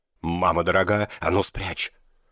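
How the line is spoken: Hissed. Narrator (Russian): прошипел Кагама

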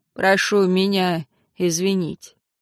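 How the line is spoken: Sighing, quiet, almost calm. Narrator (Russian): Дознаватель вздохнул еще раз, сказал уже тихо и почти спокойно

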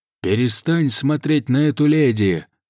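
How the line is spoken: Rude shout. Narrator (Russian): грубо крикнул ему красный рыцарь

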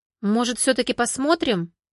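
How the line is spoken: Excited urging. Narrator (Russian): Взволнованно поторопила мужчин Валерия

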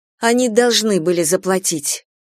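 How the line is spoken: Angry. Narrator (Russian): злобно сказала Морган

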